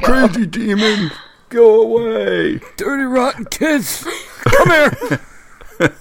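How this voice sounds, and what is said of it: Crotchety old man voice. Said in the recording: “the angel of geriatric voices ... old man voice”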